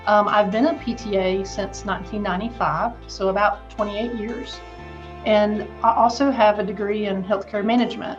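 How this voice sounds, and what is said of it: Southern American accent. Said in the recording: “I'm sure that you don't pick up on the accent at all, but I am a Southern girl.”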